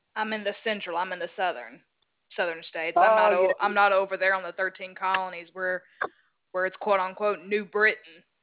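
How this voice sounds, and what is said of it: Southern American accent. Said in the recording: “You've got a lovely accent. ... I'm in the southern part of the United States.”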